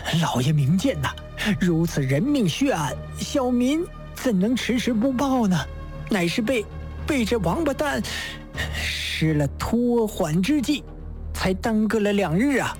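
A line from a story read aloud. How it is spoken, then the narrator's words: Through gritted teeth. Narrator (Chinese): 刘飞波咬牙切齿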